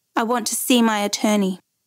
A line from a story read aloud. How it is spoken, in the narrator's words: she looked coldly at Cusack and said